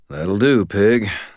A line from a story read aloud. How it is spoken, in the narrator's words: I muttered to myself